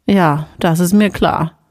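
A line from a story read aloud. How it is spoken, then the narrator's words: Grunting. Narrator (German): Ella grunzte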